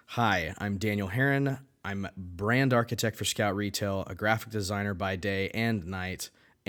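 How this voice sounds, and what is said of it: Excited, energetic voice. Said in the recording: “I am so pumped. Hopefully you can hear it in my voice.”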